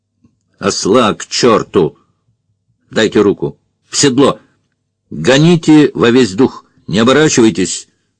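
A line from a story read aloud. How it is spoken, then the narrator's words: Clipped rapid patter. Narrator (Russian): Рубленный скороговоркой отчеканил Фандорин, опять перестав заикаться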